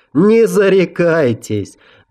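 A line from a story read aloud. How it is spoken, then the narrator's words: Loud laughter. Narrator (Russian): Гард в голос расхохотался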